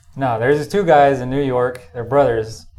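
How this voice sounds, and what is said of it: Noticeable regional accent. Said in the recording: “Can you say all your stories in that accent, please? ... just keep the accent going ... That's my normal way of talking”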